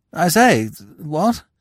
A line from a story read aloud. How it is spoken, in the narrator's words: he observed feebly